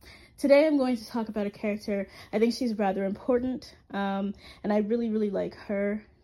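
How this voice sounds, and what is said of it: Sick, strained voice. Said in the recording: “please excuse me, I am sick... I'm going to try to get through this as smoothly as possible without losing my voice”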